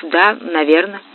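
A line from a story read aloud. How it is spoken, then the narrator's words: Mumble. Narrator (Russian): пробормотав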